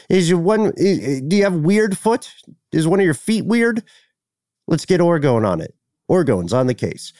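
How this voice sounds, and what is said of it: Imitates another person's voice. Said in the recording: “I'm doing a Reich voice.”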